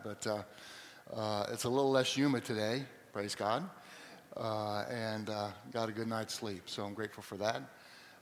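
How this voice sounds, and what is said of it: Slightly hoarse voice. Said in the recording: “my allergy is a little bit rough today, so if I sound a little hoarse”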